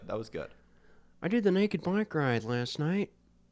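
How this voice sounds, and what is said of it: Owen Wilson impression. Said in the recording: “your Owen Wilson impression ... I love how you just had Owen Wilson say stuff that you did”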